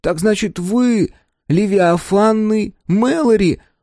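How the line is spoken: Admiring breath. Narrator (Russian): восхищенно выдохнул Тобиас

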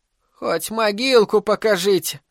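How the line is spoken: Sobbing mother. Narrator (Russian): всхлипнула одна из матерей

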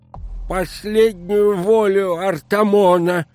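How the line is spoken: Toothless mumble. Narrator (Russian): зашамкала она беззубым ртом

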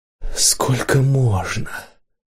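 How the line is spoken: Whispered. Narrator (Russian): сказала Ирена шепотом

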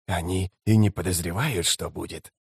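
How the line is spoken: Whispered. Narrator (Russian): прошептал Искарал Прыщ

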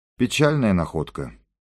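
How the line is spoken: Sighing. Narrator (Russian): вздохнул капитан

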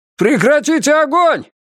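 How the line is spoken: Shout. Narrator (Russian): крикнул Феннер

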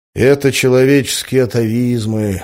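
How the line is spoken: Sighed. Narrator (Russian): вздохнул я

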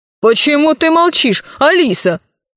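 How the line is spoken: Stern question. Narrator (Russian): строго спросил комиссар

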